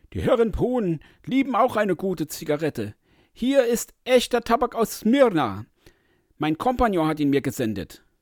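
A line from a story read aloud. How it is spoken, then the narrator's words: Calling out. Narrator (German): rief der andere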